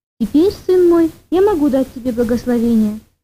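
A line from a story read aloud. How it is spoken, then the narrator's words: Plain. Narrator (Russian): сказал старец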